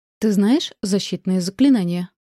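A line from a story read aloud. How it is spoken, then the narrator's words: Plain. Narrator (Russian): спросила я соседку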